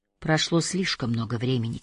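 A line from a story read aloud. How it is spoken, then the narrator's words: Quiet speech. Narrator (Russian): тихо сказала она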